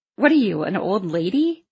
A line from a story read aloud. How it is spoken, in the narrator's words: He laughed